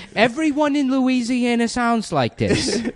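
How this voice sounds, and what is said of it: Exaggerated Louisiana Creole accent. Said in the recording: “your classic Louisiana accent ... This is a classic Louisiana accent ... like a real have Creole”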